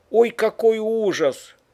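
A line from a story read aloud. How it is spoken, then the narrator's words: Shocked exclamation. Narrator (Russian): воскликнула Агния Петровна, когда вошла в комнату и увидела содеянное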